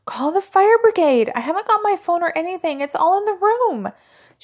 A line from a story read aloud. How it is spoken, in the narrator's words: she shouted to him